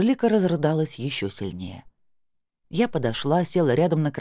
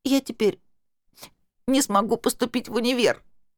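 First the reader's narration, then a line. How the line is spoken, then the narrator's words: Hoarse, sobbing, tearful. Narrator (Russian): Размазывая слёзы и всхлипывая, прохрипела Анжелика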